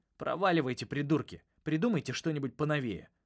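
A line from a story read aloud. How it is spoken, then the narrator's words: Snapped. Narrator (Russian): огрызнулся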